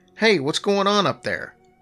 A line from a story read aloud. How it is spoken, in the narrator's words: Jerry, who was in the kitchen, called out to me